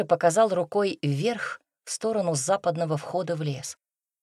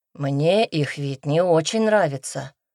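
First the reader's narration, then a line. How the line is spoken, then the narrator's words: Sighing. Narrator (Russian): вздохнул Никита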